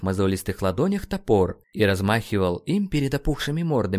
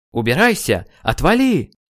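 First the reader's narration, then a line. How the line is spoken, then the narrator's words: Weak, slurred, pitiful shout. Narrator (Russian): Нейту казалось, что он крикнул во весь голос, но слова прозвучали невнятно и жалко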